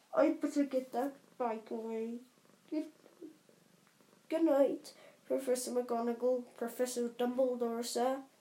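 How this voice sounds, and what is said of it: Muffled Hagrid character voice. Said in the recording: “said Hagrid in a muffled voice”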